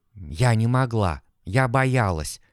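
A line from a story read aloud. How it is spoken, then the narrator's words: Barely audible. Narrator (Russian): еле слышно произнесла Олеся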